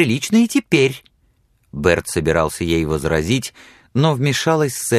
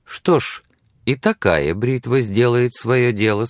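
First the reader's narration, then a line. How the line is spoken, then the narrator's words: Plain. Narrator (Russian): сказала Сексон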